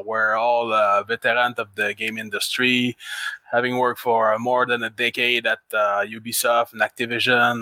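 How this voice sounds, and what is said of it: Québécois French-Canadian accent. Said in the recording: “We're based in Quebec City, Canada. So, excuse my accent from time to time. With that and the fact that I'm a bit tired”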